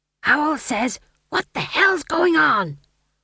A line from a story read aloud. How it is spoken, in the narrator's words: He hissed